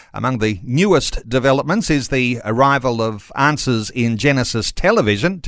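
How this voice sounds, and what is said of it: Australian accent. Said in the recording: “It's great to hear an Australian accent”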